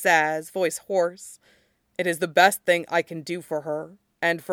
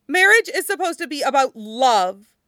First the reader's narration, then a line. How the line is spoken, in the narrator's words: Tang Fan blurts, voice breaking on the last word